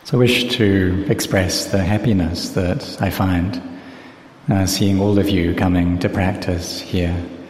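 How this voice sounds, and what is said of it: Voice not in good condition. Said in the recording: “my voice is not so good today. So when it rains like this, I have an allergy towards this humid weather.”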